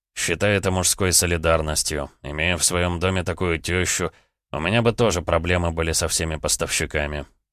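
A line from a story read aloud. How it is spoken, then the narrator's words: Amused snort. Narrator (Russian): хмыкнул Роман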